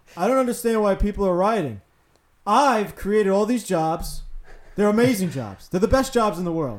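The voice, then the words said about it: Good impersonation of a politician. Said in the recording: “That's pretty good, by the way. ... Pretty good impersonation”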